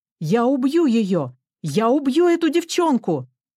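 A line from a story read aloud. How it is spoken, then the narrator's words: Furious, hateful shouting. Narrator (Russian): кричал мистер Дотсон, выпучив на меня свои злые, полные ненависти и возмущения глаза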